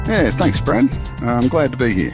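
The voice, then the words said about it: Australian Queensland twang accent. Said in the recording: “that's not a South African accent ... You are fair dinkum Aussie ... you can tell the Queensland twang. I'm a definite Aussie all the way through.”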